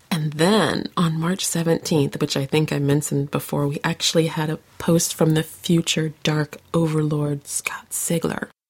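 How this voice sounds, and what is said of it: Rough, sore-throated voice. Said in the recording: “my voice is not very soothing tonight. It needs soothing, so that's why I'm loading up on the cough drops”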